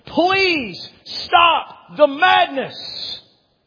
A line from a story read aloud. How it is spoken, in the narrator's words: he pleads with them